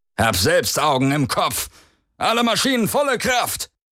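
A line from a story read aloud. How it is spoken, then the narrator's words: Barked into speaking tube. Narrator (German): bellte er in ein Sprechrohr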